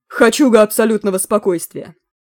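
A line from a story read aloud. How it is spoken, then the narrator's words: Clipped explanation. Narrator (Russian): отрывисто пояснил Клинч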